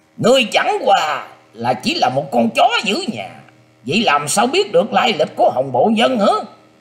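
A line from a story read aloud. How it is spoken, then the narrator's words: Loud laughing taunt. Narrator (Vietnamese): Bắc Hy Ngôn cất cao giọng cười rồi lên tiếng nói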